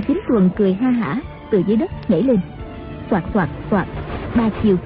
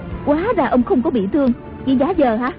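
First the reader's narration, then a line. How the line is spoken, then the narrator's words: Surprised and angry. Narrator (Vietnamese): Tần Hồng Miên ngạc nhiên giận dữ nói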